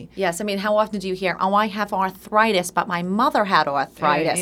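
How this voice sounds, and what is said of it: Long Island New York accent. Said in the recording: “I love the accent. It's very Long Island.”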